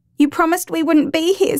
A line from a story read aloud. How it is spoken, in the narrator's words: sobs Grace